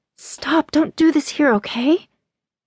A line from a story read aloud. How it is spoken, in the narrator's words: She whispered